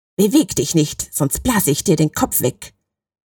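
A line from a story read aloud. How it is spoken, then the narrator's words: High frantic growl. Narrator (German): knurrte der Schütze mit hoher und hektischer Stimme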